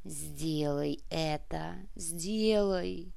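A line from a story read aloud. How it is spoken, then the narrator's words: Sorceress whispering. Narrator (Russian): прошептала колдунья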